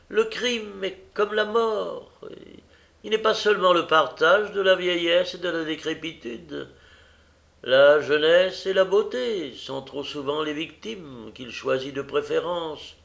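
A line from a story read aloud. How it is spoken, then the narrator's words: Sad surgeon continuing. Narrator (French): continua le chirurgien en secouant tristement la tête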